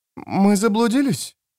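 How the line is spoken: Trembling voice. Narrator (Russian): дрожащим голосом спросила Элина

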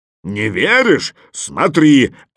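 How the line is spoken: Bear's bark. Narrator (Russian): рявкнул медведь

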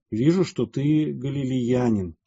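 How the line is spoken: Plain. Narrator (Russian): сказал трибун

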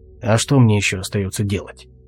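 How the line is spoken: Grumbling. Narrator (Russian): буркнул Алвис

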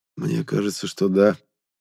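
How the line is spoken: Quiet reply. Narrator (Russian): так же тихо отозвался я

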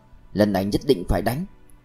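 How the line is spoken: Muttering. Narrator (Vietnamese): Thiệu Đông lẩm bẩm

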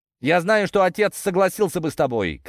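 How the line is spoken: Shout from behind. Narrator (Russian): крикнул мне Ланский уже в спину

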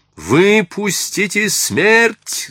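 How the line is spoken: Shouting. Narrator (Russian): закричал отец жрецов

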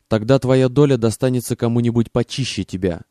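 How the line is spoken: Snapped. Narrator (Russian): огрызнулся Селливан

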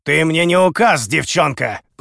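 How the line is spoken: Growled. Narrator (Russian): прорычал Дао

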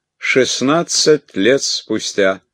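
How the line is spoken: Loud. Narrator (Russian): громко, чтобы мы расслышали, произнес

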